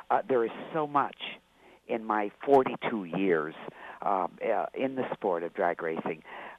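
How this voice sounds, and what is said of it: Hoarse voice. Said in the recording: “my laryngitis”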